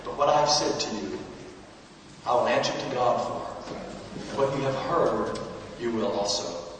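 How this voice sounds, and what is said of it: American accent. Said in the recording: “some old American coming over here with a funny accent”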